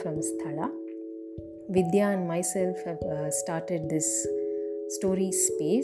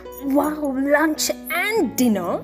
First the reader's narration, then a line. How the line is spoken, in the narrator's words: Hickory screeched